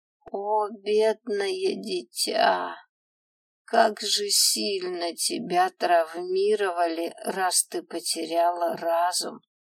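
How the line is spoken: Mournful drawl, old man. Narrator (Russian): протянул старик, причем так, словно уже похоронил меня

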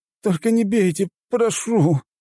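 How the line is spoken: Whimpering plea. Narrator (Russian): проскулил парень

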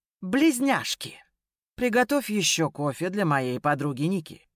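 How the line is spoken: Lazy, cheerful. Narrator (Russian): Бросил лениво Ян, жизнерадостно улыбаясь

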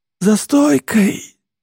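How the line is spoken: Hoarse wheeze. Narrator (Russian): сиплю

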